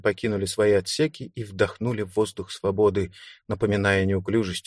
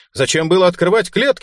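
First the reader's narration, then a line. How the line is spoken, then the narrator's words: Indignant shout. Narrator (Russian): негодующе крикнул он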